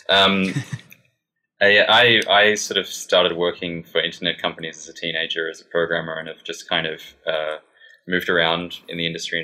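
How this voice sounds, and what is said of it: Australian accent. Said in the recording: “I'm an Australian, as you can probably tell from my bizarre accent”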